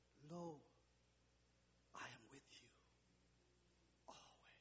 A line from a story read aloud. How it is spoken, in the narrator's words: whispered softly and said